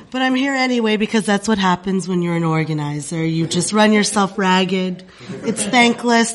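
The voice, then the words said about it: Voice sounds like she has a cold. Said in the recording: “As you can hear from my voice, I have a cold.”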